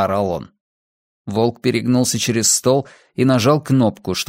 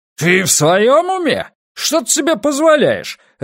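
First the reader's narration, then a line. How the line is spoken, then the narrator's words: Furious bark. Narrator (Russian): в бешенстве рявкнул старший инспектор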